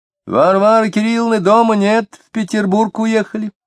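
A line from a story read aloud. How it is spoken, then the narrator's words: Cheerful girl's shout. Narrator (Russian): девочка-подросток почему-то с радостью весело закричала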